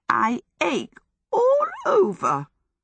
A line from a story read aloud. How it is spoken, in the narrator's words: The voice that exclaimed was a weak, cracked piping